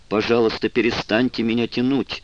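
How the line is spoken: Anguished shout. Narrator (Russian): закричал он, и в голосе звучало такое страдание

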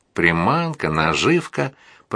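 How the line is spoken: Grumbling. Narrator (Russian): проворчал Шимон

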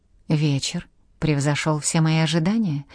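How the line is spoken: Whisper in ear. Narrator (Russian): шепнул он ей на ухо

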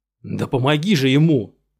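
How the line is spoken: Yelling. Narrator (Russian): заорал он, застывший в ужасе Жюстин

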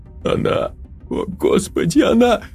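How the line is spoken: Forced out through sobs. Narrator (Russian): Сквозь всхлипы выдавила из себя Елена

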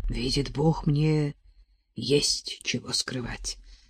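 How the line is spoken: Hoarse whisper. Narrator (Russian): хрипло прошептал Сирин

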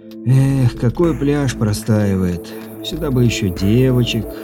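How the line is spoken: Sorrowful sigh. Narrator (Russian): горестно вздохнул Виктор

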